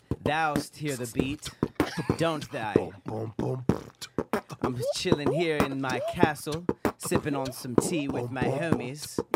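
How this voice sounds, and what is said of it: Put-on British accent. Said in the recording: “British accent.”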